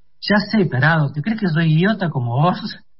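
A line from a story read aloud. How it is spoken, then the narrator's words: Laughing, relaxed teasing. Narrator (Spanish): lo retó riendo y más relajada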